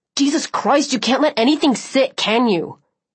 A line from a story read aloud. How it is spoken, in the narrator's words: she snapped